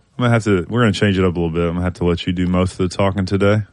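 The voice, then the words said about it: Weakened voice, not fully recovered. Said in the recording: “My voice is, it's coming back. It's on the mend”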